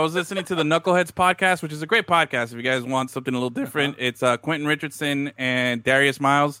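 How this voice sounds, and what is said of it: Usual voice. Nothing is said of it.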